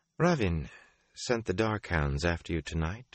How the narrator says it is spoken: she said calmly

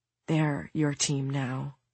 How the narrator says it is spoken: she whispered over and over again

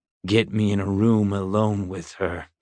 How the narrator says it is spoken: growled Bowers

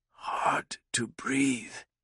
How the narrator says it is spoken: Dieter whispered

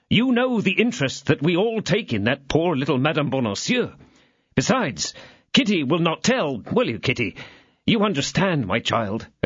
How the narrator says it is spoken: exclaimed D'Artagnan

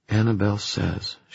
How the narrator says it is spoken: she whispered

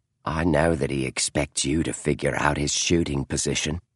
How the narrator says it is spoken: she said softly

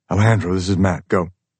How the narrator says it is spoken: he says calmly

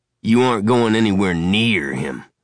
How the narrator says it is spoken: Uncle Travis snapped irritably

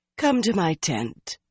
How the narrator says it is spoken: Galena said soothingly

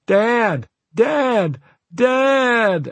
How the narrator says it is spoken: at the top of my lungs

